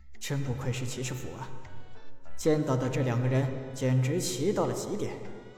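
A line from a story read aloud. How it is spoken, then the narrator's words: Sighing with emotion. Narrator (Chinese): 陈南慨叹呐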